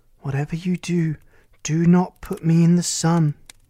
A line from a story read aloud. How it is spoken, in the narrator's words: she gasped